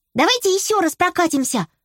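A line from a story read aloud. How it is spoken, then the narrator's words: Exclaimed. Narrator (Russian): воскликнула овечка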